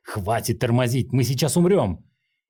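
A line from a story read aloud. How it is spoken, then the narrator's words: Shouted. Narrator (Russian): крикнул Линхуан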